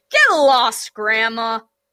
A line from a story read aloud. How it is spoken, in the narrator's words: Arachne snapped